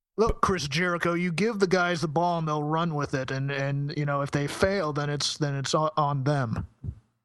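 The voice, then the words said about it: Triple H impression. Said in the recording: “It's my Triple H. ... I think that was better this time than even the first time. It's improving. It's a good impression.”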